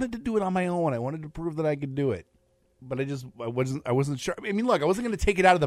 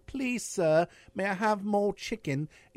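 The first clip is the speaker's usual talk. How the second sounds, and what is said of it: Put-on British accent. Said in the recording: “weird British accent thing”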